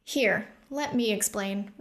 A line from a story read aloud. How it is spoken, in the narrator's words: Rune said in a relaxed tone to Opal